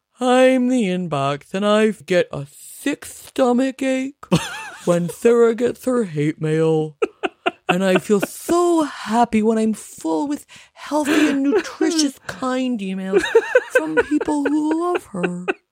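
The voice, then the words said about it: Impression of the narwhal from Elf. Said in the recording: “It's a character in Elf. A narwhal comes up ... I do a very good impression of that guy.”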